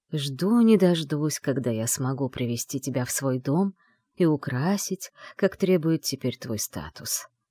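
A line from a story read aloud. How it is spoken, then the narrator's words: Quiet male voice. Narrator (Russian): тихо продолжил мужчина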